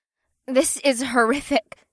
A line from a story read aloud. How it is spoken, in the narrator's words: Pei sputtered with wide eyes